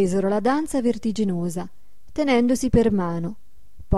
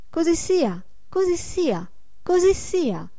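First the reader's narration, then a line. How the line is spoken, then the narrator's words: Joyful crackling group shout. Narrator (Italian): gridarono tutti con voce lieta e crepitante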